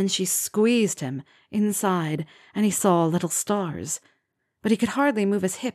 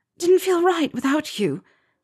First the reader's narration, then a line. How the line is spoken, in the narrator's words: she panted